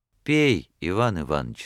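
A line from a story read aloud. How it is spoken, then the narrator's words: Tender. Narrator (Russian): сказал он нежно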